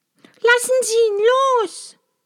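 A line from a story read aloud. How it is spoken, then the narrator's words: Tearful cry. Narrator (German): rief Maja und in ihren Augen kamen Tränen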